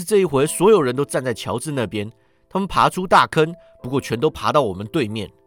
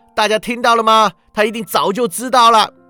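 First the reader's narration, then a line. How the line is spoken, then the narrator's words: Shouting. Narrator (Chinese): 乔治叫道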